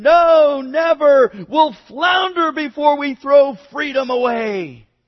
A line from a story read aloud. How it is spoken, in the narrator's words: the captain refused, shouting above the wind